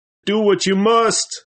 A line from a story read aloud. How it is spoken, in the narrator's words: with his face in his hands cried